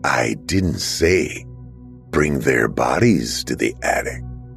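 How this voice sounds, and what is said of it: Deep disembodied character voice. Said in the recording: “a deep voice said from seemingly nowhere”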